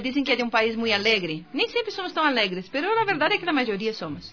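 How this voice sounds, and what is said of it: Brazilian accent speaking Spanish. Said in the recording (Spanish): “tiene cierto acento ... ¡De Brasil!”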